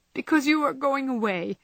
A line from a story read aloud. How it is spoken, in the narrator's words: that undignified creature answered with an irrepressible sob